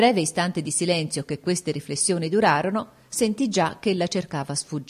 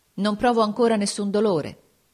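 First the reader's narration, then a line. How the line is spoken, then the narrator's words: Plain. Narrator (Italian): le disse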